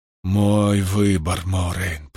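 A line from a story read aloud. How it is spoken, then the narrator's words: Muttering. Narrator (Russian): пробормотал Ранд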